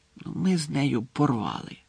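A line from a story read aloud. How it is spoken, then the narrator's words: Whisper through still lips. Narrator (Ukrainian): прошепотів він Гаррі, не ворушачи губами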